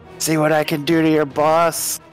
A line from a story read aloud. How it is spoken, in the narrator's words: he shouts in giant into the giant's face